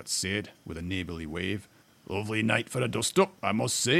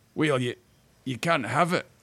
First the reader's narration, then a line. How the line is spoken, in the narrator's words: stammered the dwarf